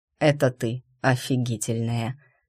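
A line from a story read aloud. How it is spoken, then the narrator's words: Whisper. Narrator (Russian): шепнул Туманов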